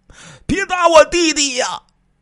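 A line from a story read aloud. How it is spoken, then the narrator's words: Loud shout. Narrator (Chinese): 孙贵大喊了一声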